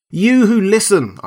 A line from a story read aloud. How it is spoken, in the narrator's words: I cried … shouting past him to the beastmen